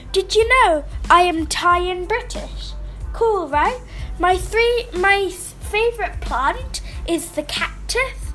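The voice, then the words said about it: British accent. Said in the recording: “That's why I've got a British accent.”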